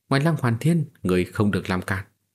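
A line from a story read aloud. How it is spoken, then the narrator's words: Cold. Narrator (Vietnamese): Ân Chỉ lạnh lùng nói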